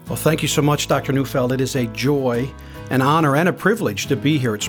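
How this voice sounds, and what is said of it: Newfoundland accent. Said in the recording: “is a pastor from Newfoundland, from St. John's ... it's delightful to also to listen to your accent. We don't often get someone from Newfoundland here”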